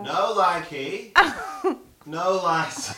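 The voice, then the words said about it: Put-on Northern English accent. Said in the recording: “I've never heard your Northern accent. What's it like?”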